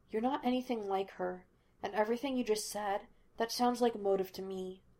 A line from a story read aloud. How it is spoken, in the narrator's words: Laster said quietly